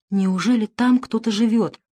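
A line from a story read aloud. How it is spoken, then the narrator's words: Whisper. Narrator (Russian): прошептал Дэвид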